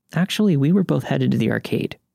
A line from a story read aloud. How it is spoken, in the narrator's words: she says harshly